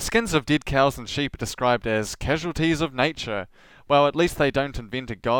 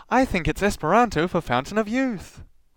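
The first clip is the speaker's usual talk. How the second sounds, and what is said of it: Ditzy put-on voice. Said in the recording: “In ditzy voice”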